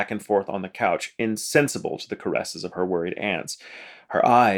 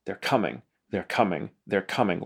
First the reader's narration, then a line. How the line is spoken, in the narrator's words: She would mumble to herself